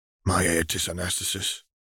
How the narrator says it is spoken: he murmured

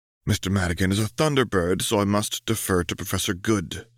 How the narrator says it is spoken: sighed Fry

